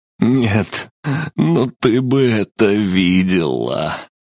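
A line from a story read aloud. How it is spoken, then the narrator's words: Near moan. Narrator (Russian): Почти простонал он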